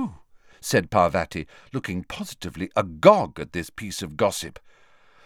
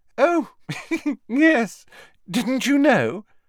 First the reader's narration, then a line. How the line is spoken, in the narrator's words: said, with a most un-Hermione-ish giggle